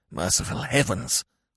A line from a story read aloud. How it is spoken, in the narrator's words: whispered Smith